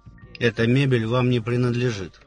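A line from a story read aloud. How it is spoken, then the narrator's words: Stubborn calm reply. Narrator (Russian): упрямо и спокойно отвечал Балашов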